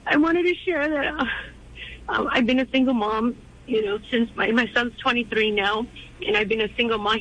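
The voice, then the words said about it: Emotional, shaky voice. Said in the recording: “I'm a little bit emotional right now.”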